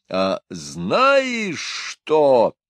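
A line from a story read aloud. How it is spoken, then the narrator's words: Powerful bellowing yell. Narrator (Russian): завопил он, ибо к нему, как нередко бывало, вернулась его бычья мощь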